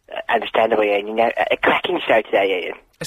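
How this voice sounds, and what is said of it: Imitates another person's voice. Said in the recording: “fake Graham ... a good impression”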